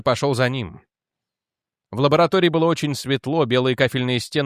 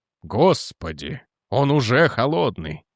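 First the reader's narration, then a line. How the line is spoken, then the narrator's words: Breathless gasp. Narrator (Russian): выдохнул он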